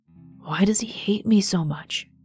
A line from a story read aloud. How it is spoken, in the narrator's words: He whispered